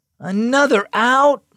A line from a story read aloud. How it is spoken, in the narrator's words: Max moaned